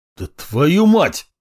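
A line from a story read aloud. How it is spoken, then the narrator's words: Barked. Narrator (Russian): рявкнул я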